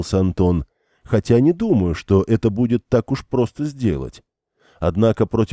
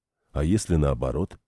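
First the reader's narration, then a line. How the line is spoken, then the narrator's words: Plain. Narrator (Russian): спросил он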